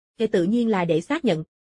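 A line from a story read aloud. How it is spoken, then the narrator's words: Smiling. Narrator (Vietnamese): Bạch Duệ Thông mỉm cười nói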